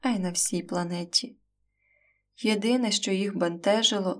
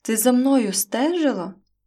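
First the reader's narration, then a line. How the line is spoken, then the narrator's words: Indignant exclamation. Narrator (Ukrainian): обурено вигукнув їй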